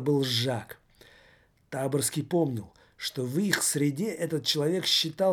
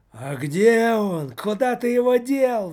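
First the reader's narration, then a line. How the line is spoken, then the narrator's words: Ogre's roar. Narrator (Russian): взревел Жор-людоед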